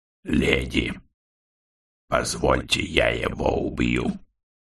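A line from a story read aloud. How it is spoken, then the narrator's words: Hoarse, detached stoner voice. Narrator (Russian): хрипло отрешенным голосом профессионального потребителя марихуаны попросил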